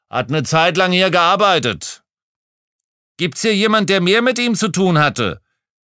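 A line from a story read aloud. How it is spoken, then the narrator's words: Thundering voice. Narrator (German): donnerte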